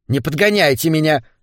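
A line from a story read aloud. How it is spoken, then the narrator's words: Snapping. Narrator (Russian): огрызнулась ее спутница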